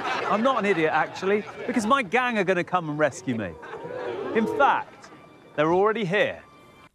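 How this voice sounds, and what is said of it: Very proper period English accent. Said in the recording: “Clearly going for a very, very proper period accent and period language in this.”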